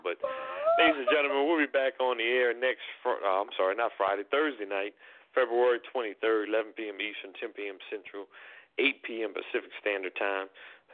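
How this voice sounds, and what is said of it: Hoarse, strained voice. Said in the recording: “I'm losing my voice a little bit tonight”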